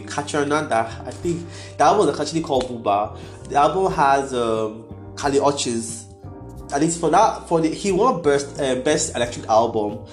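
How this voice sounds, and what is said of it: Nigerian accent. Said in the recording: “I have a Nigerian accent ... It sounds like I'm saying Haitian with Yoruba accent.”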